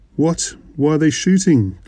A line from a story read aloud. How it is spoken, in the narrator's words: Gillespie shouted